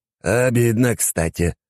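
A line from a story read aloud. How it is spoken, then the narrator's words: Sighing. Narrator (Russian): вздохнул Белмор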